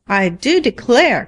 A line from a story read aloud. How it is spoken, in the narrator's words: cried Farmer Sanborn